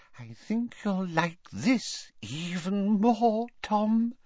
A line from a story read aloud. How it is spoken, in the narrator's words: she whispered